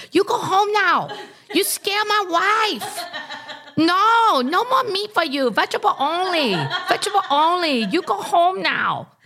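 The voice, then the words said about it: Imitates another person's accented voice. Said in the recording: “I'm not doing the accent. I'm doing John. So I'm hearing complaints that I'm doing an accent that is not flattering”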